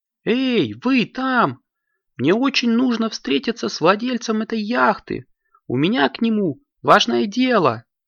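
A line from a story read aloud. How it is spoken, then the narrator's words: Shouting. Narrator (Russian): закричала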